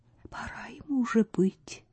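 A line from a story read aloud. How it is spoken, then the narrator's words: Whispered. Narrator (Russian): Стефа шепнула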